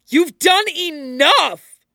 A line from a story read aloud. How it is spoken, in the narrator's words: Madara roars